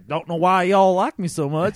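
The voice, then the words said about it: Poor hillbilly-sounding Marshawn Lynch impression. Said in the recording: “terrible Marshawn impersonation ... that was like hillbilly Marshawn. He doesn't even sound like that.”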